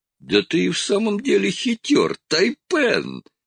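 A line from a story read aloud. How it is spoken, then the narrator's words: Giggling. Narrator (Russian): хихикнул Скрагер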